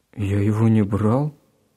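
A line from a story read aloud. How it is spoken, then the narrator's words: Confused answer. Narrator (Russian): растерянно ответил Гена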